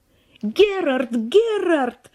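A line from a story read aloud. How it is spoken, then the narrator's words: Shouting across a distance. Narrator (Russian): кричала она ему через всю террасу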